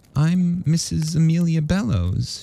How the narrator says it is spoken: she said quietly in her best company voice

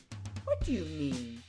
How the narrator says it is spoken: he said indignantly

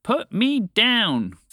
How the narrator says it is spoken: Phoebe shouted back to the bird

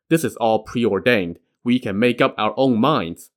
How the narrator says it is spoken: the 4 Taoists consoled him and said

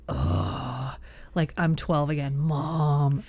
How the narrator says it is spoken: groans

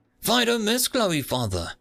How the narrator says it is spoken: the cyborg barked

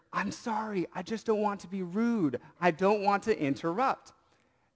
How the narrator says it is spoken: I leaned back to her and whispered

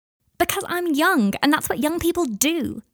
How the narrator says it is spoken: Adelaide shouted at him

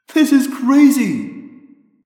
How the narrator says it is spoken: Rachel shouted happily

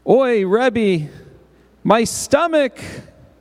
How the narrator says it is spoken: cried Moshe

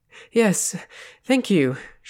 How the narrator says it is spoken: panted

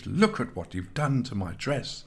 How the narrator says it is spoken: spluttered in outrage

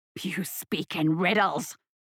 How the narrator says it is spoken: hissed the tyrant

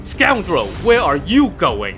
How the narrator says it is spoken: Lin Chong roared

